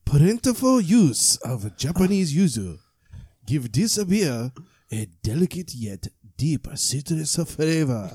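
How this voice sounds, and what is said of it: Exaggerated mock Japanese accent. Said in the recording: “I'm gonna do this in a racist Japanese accent”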